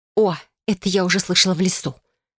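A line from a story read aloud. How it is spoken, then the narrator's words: Growled. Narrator (Russian): рыкнула я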